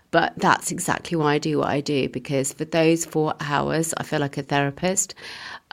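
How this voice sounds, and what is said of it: Emotional voice. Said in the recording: “I'm getting emotional now”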